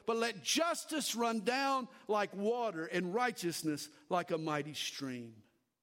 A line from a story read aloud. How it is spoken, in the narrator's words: cried out